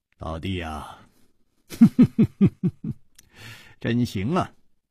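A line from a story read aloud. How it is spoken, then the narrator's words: Laughing. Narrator (Chinese): 张小林笑道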